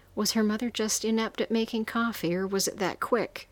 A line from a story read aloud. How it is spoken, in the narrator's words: asked and fought the urge to laugh